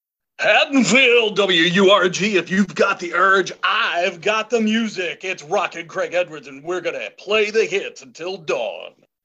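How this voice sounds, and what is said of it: Radio DJ announcer voice. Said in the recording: “that was a really good radio voice.”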